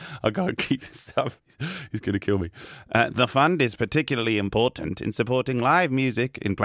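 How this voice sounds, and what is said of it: Usual voice. Nothing is said of it.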